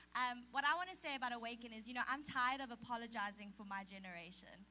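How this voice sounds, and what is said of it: South African accent. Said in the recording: “we love her South African accent.”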